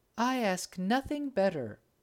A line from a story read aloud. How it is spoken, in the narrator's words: cried the eldest